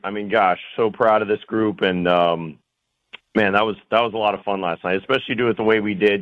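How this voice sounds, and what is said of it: Foggy, tired voice. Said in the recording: “My voice is a little foggy as well”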